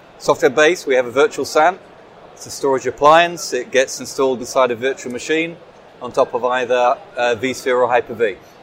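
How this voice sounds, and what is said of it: English accent. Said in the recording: “I guess from the accent that you're English.”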